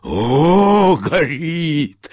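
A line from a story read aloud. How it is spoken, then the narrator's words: Shouting with laughter. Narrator (Russian): закричал он и засмеялся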